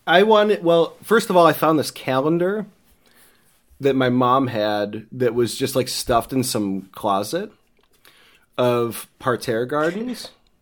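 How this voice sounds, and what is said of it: Strong Midwestern American accent. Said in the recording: “I have a really hard Midwestern accent”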